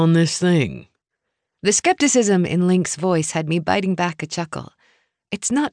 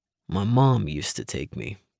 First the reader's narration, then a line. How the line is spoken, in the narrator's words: he said quietly